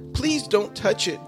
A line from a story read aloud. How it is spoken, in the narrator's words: cried Whitey in great distress